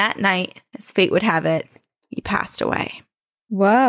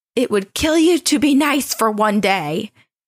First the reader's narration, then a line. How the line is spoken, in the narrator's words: fighting, his wife yelled